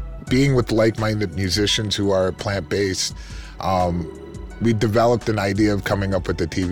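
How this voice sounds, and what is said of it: Usual voice. Nothing is said of it.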